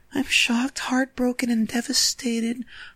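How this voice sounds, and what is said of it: Imitating Elizabeth Chambers' voice. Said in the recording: “I should do her voice.”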